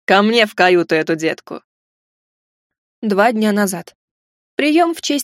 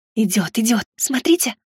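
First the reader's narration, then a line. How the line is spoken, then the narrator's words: Whisper. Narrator (Russian): прошептала Рина Инфлай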